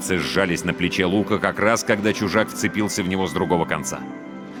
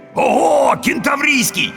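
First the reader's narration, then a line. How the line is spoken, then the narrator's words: Ecstatic yelling. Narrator (Russian): восторженно завопил первый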